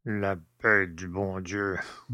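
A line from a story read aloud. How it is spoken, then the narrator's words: Old man grumbling. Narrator (French): bougonna le père Jacques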